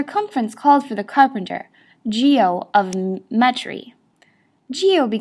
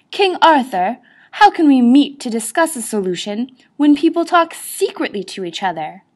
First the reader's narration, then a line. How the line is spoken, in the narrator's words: Sir Galahad exclaimed